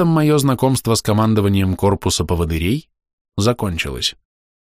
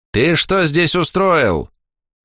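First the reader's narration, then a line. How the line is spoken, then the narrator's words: Thin teacher yelling. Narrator (Russian): заорал сухонький учитель на здоровенного кладовщика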